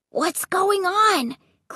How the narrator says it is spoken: Clay cried in a whisper

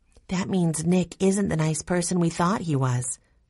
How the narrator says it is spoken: Jessie said sadly

